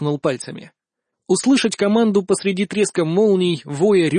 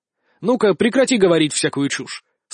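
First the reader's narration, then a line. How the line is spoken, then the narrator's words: Stern interruption. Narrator (Russian): строго прервал ее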